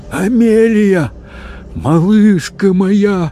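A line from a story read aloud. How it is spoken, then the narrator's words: Hoarse, choked-out voice. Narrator (Russian): севшим голосом выдавила мадам Икс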